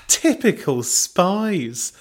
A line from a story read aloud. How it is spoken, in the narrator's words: Belinda laughed